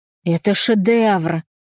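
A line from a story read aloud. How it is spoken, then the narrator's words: Breathless exhale. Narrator (Russian): выдохнула Кристина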